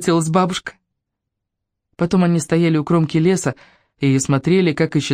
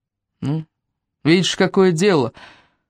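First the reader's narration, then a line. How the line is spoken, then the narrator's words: Old man's sigh. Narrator (Russian): вздохнул дед Пашков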